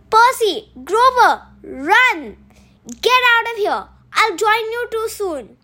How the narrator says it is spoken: once she knew that Medusa was looking at her, she yelled

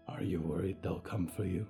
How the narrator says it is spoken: Yuretsi murmured, almost asleep herself

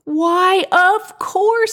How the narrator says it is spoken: exclaimed Willie

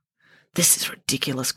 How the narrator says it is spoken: grumbled Friday, from inside her cocoon of blankets

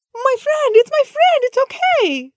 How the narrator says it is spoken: Zulfikar shouted

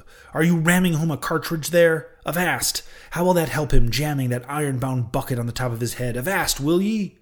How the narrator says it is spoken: cried Stubb

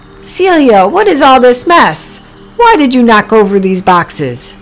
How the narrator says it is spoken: Then Priscilla heard someone shout

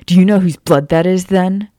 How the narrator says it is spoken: Remus growled at her, the sound almost identical to the snarling beast behind him

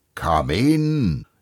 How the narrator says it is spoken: exclaimed the ghost

